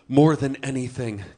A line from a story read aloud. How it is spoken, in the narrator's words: Gimli sighed